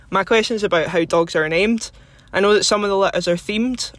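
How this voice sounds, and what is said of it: Scottish accent. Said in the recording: “I love your accent ... all the way from Scotland”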